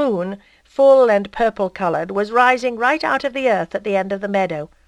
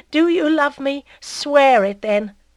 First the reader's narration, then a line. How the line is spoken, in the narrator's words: she said with a voluptuous laugh